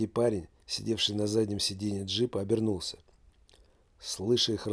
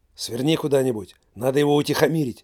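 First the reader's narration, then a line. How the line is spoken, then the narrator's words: Hysterical shout. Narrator (Russian): истерически крикнул бандит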